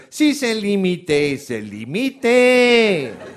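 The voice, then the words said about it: Slow, drowsy Swiss French accent. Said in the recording (French): “avec leur accent qui a pris du Tranxen”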